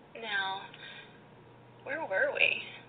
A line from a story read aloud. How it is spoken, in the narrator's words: Petra purrs distractedly